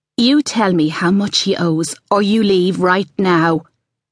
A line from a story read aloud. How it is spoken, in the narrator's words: Ali said